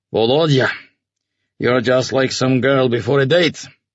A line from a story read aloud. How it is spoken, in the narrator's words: the colonel chuckled